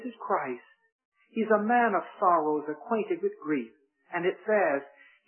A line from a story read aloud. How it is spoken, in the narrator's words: he sighed deeply